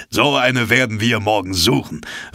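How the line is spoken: Calling out. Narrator (German): rief Ned Land

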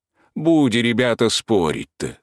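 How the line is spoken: Plain, old man. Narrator (Russian): сказал дед

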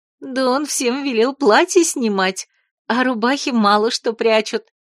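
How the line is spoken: Giggling. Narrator (Russian): хихикнула Кася

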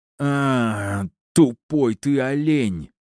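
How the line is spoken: Breathless groan. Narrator (Russian): простонал, кое-как набрав в легкие воздуха

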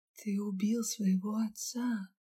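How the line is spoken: Barely audible whisper. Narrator (Russian): прошептала едва слышно

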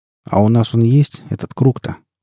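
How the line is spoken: Glum inquiry. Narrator (Russian): Уныло поинтересовался Гамегин

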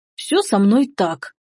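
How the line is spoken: Offended grumble. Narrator (Russian): обиженно проворчал он

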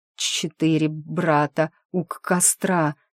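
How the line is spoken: Stammering. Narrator (Russian): заикаясь, проговорил

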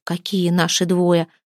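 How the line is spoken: Hoarse rasp. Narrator (Russian): прохрипела Мирава

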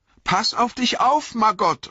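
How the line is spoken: Calling out. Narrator (German): rief sie

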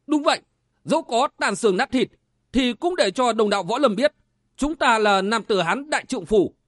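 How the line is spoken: Flushed, loud shout. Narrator (Vietnamese): La Kỳ đỏ mặt quát to

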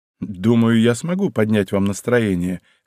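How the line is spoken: Amused snort. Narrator (Russian): хмыкнул

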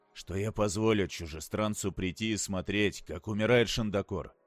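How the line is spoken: Quiet. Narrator (Russian): произнес Корин тихо

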